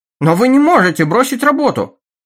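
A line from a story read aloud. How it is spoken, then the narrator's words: Exclaiming. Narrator (Russian): воскликнул начальник станции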